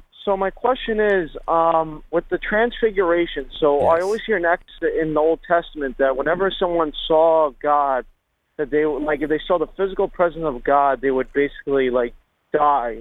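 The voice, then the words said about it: Long Island accent. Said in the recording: “I love the Long Island accent”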